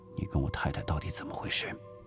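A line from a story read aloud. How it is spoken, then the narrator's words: Low, hushed question. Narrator (Chinese): 吴石低声问道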